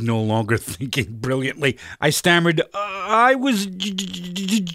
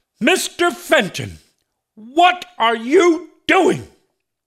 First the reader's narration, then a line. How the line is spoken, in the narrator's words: She bellowed